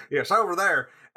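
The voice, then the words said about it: Attempted Southern US accent. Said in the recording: “I can't do a Southern accent.”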